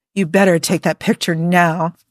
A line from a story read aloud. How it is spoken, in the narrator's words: Jim growled